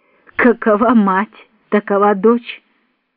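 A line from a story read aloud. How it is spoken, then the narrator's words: Cheerful giggling reply. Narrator (Russian): Алексей весело захихикал по своей манере, ответил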